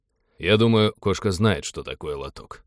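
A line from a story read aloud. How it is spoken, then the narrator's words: Grumbling. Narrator (Russian): проворчал Тед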